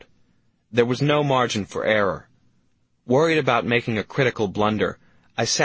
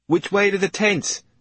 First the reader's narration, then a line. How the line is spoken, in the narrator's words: Andy blurted, frantic to reach shelter